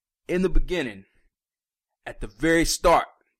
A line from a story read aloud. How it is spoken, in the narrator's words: they cried